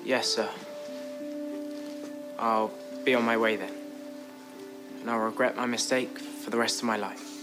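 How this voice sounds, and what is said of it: Speaks with a charming accent. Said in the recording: “That accent makes it really hard to hold a grudge.”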